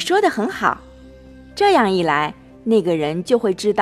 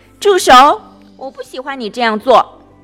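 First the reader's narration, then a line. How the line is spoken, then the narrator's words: Loud repetition. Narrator (Chinese): 吉米大声重复道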